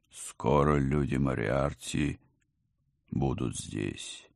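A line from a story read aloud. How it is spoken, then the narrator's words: Thoughtful drawl. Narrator (Russian): задумчиво протянул великий сыщик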